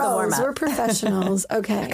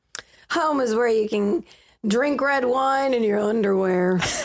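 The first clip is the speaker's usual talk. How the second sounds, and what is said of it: Southern twang, drunk-sounding voice. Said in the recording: “accent and phrase match up perfectly ... I heard like a twang in there. I was going to say, like, Southern drunk”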